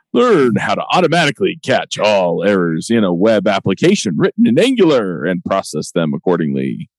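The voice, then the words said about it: Announcer voice. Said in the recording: “I should pull out my announcer voice.”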